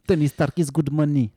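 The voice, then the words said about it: Fake Italian accent speaking English. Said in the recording (French): “C'est mon accent italien quand je parle anglais.”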